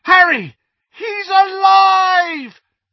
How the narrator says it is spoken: The yell of shock

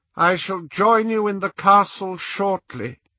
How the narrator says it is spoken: he said in his high, cold voice

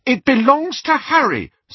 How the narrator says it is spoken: said Hermione hotly

